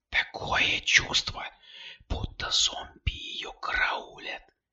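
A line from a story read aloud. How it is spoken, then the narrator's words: Whisper. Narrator (Russian): прошептала Кристина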